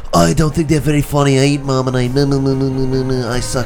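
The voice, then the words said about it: Mock Australian accent, inconsistent. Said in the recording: “salty like some Australians ... you just threw like three different accents out there ... Australians, they don't have one solid accent”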